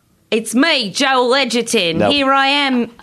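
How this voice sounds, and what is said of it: Attempted Australian accent, sounds cockney. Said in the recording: “You want to do an Australian accent? ... It's a little cockney.”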